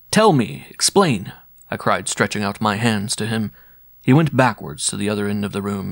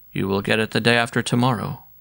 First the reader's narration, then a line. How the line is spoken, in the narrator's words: said in the same dull monotone